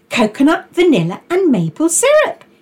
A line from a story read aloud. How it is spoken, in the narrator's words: exclaimed Lola